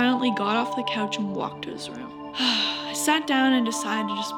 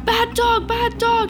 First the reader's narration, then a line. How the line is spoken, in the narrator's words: he was screaming